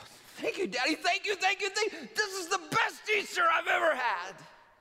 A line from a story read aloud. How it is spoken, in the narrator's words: exclaimed